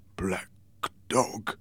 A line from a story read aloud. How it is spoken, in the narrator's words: murmured